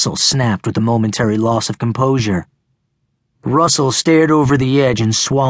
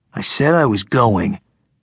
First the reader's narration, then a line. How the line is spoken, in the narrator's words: Russell said sullenly